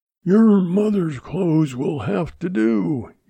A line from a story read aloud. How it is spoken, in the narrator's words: he roared